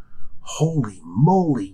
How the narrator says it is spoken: whisper

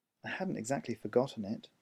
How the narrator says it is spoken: Trip muttered, guilt rising up inside him again

